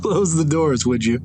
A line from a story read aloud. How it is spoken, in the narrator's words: She says, giggling